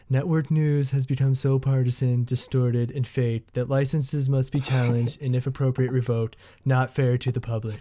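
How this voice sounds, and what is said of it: Imitates another person's voice. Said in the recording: “do my Trump impersonation ... Pretty good. That's pretty good, man.”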